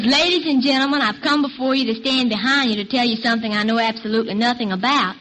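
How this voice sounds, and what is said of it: Charming accent. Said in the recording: “What a charming accent.”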